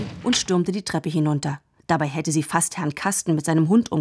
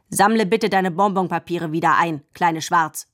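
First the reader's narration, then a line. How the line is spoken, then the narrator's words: Said sternly. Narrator (German): sagte streng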